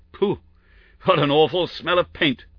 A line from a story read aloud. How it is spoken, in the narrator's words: cried the inspector